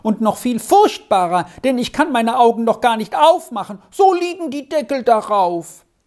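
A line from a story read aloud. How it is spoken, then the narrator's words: Shouting man. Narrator (German): schrie ein Dritter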